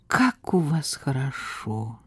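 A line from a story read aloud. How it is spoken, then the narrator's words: Sigh. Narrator (Russian): вздохнул Слава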